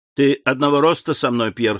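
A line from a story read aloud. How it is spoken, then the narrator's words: Plain. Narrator (Russian): сказал ему Андреа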